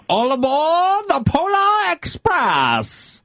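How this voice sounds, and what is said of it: Imitates Polar Express conductor's voice. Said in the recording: “does a Polar Express impression”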